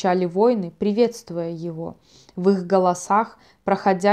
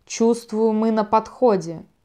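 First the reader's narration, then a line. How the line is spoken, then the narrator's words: Warrior growling. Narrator (Russian): прорычал воин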